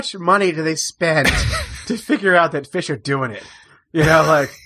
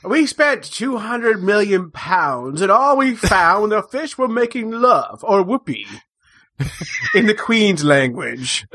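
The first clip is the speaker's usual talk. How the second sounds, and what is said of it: Put-on English accent. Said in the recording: “That's my best English accent ... It was as if I was in Southampton.”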